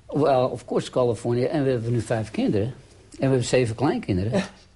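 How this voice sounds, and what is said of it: Slight accent, a bit Amsterdam. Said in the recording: “Met een klein accent ... af en toe een klein beetje ... een beetje Amsterdams misschien”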